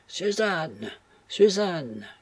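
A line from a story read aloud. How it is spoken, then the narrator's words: Desperate cry. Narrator (French): cria Florence, avec les signes du plus violent désespoir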